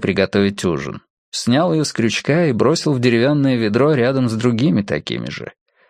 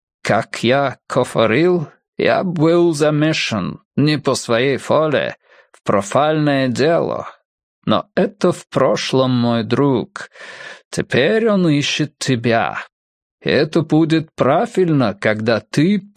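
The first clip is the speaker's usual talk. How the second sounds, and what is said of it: Strange Prussian accent, drawn out. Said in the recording (Russian): “протянул пруссак со своим странным акцентом”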